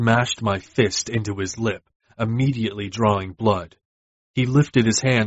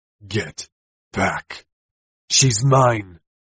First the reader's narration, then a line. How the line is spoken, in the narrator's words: I hissed